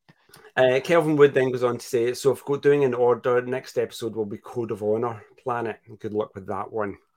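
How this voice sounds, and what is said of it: Scottish accent. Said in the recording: “I have to do a Scottish accent ... so I can just copy your accent”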